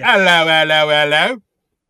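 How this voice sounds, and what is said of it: Put-on Cockney accent. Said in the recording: “Cockney”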